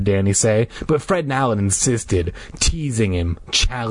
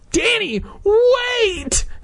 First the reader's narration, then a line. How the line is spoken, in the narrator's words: Hannah cried